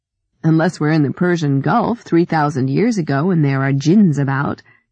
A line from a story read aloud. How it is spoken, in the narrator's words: Ellie laughed